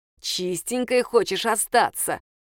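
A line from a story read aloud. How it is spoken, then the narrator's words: Hissed. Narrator (Russian): прошипела Софья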